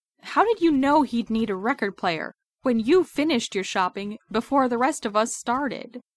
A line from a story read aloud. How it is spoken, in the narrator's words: Clint hisses at Coulson